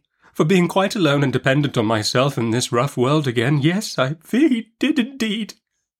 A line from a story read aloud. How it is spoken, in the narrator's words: sobbed my mother